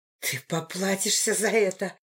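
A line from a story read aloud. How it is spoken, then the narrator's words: Hissed. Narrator (Russian): прошипела я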